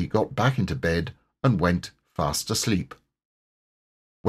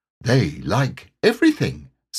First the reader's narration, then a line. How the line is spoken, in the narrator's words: said Tigger cheerfully